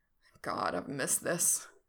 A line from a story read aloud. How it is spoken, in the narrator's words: Frank groans